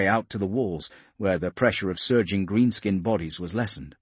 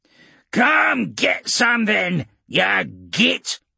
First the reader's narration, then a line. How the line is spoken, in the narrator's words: Grimtooth spat back